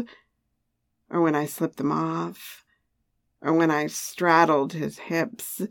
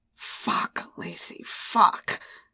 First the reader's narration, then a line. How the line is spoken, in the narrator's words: he growled